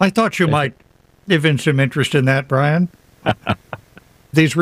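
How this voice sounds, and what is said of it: Usual voice. Nothing is said of it.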